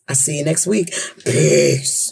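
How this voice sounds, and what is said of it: Deep voice imitating another person. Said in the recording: “in my deepest Pam voice”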